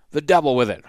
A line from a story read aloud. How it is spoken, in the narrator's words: Hardin exclaimed impatiently